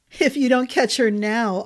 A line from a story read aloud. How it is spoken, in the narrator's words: Arden said, laughter tears in her eyes